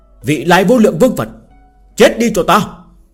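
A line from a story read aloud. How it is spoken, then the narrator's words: Loud shout. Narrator (Vietnamese): hắn hét lớn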